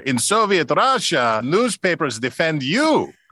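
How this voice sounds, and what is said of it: Yakov Smirnoff Russian accent impression. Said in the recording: “in a Yakov Smirnov accent”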